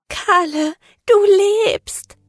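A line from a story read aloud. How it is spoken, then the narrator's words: Sobbing. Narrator (German): schluchzte sie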